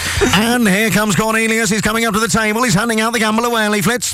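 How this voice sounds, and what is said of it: Irish jockey race-commentator impression. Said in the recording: “in the voice of a commentator ... in the voice of a jockey ... it's a little voice of a jockey ... The one I'm doing an impression of happens to be Irish”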